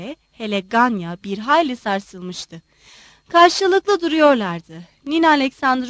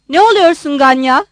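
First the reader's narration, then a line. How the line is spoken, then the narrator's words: Shouting. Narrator (Turkish): diye bağırdı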